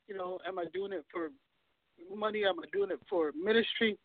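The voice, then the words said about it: Hoarse, fading voice. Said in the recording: “I'm losing my voice here. Allergies.”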